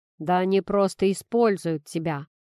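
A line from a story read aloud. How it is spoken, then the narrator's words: Grumbled. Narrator (Russian): проворчал Тимоха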